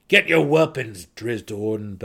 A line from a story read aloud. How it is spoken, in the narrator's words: Belwer growled again